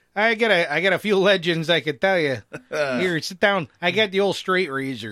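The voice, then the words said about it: Horrible fake barber accent. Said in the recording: “You and your accents ... our horrible fake accents”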